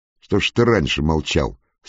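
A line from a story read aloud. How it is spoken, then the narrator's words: Old officer asking angrily. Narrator (Russian): сердито спрашивал у них отставной зауряд прапорщик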